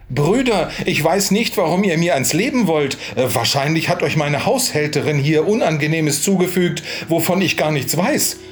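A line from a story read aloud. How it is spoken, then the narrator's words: Calling out. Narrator (German): Dieser aber rief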